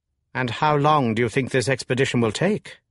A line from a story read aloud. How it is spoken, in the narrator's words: said the Chevalier